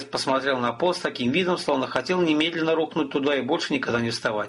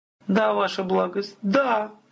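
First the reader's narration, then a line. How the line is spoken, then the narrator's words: Messenger near sobbing. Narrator (Russian): Гонец едва не рыдал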